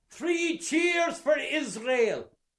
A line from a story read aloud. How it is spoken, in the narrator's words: he bawls out of him